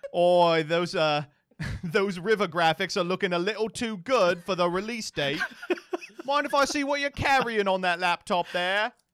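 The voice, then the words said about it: Put-on British accent. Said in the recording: “I am not joining the British accent bit”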